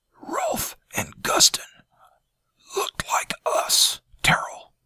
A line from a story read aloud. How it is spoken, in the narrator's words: Janus said, his voice hardly more than a hoarse whisper